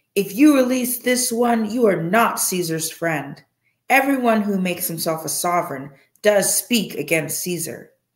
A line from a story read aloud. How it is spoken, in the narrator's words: the Yehudim shouted, saying